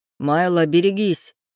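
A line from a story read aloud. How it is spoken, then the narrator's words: Growled. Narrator (Russian): прорычал Рейв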